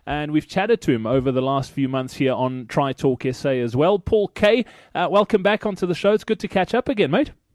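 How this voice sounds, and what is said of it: South African accent. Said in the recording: “It's good to hear a South African accent”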